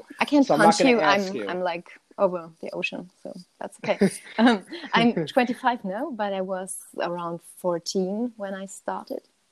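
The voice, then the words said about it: German accent in English. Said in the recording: “All the way from Germany and a cool accent”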